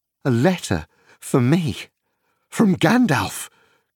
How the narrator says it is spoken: cried Frodo

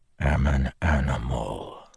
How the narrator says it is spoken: Dalinar said softly

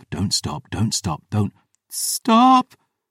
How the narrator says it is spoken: she cried

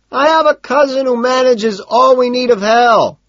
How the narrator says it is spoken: he shouts

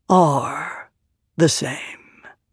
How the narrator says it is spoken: said softly

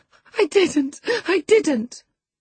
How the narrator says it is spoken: sobbed Cathy, fit to break her heart

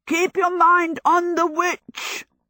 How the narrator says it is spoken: the horse beside Sophie yelled

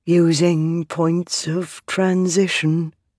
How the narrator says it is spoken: the sibling said, their voice growing distant

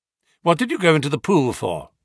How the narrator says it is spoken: he asked

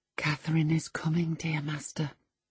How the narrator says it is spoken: I whispered

